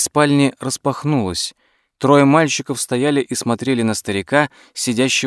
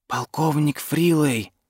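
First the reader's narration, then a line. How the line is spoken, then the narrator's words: Quiet. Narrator (Russian): тихо сказал Дуглас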